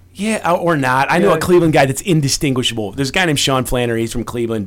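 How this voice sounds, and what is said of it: Chicago accent. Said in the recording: “I chose to talk like this... I want to talk like a dickhead... I got this voice from a kid on my block named Murph... The Chicago accent”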